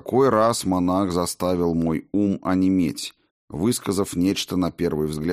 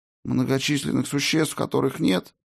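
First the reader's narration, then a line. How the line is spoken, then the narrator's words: Weak voice. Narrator (Russian): Слабым голосом осведомился я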